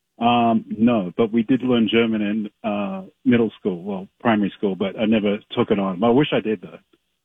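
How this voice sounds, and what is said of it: Australian accent. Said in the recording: “you have an Australian accent ... the accent ... you hit her with an Aussie”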